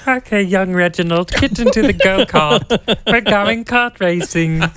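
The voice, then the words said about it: Exaggerated cartoonish British accent. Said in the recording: “your British accent lands somewhere between Wallace and Gromit and Peppa Pig”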